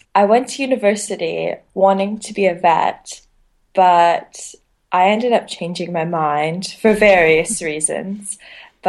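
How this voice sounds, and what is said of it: Canadian accent. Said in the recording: “from the accent, I'm actually from Canada.”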